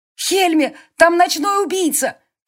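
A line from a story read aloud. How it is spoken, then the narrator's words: Shouting, facing away. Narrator (Russian): крикнула она, не оборачиваясь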